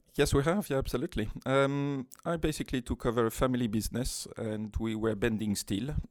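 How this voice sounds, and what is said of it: French accent. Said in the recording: “you have a lovely French accent”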